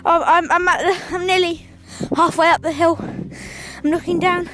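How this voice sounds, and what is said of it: Out of breath, panting while talking. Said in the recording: “I'm out of breath because I'm running”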